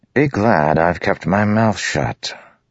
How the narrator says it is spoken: Lamoral said lazily

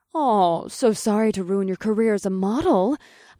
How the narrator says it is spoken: growled

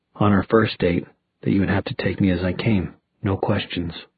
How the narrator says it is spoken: Magnus said softly

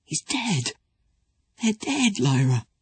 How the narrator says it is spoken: Pan said shakily

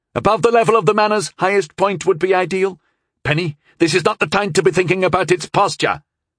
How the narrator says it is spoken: I shot back angrily

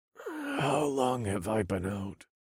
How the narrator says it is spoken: I asked, and my voice was so hoarse, each word came out as a whisper

